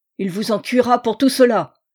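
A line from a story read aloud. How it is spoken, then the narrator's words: Furious scream. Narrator (French): hurla Stangerson, blanc de rage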